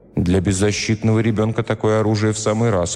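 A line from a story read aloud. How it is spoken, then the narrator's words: Plain. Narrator (Russian): сказал я Артур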